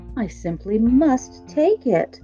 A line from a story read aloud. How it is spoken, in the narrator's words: cried the very old man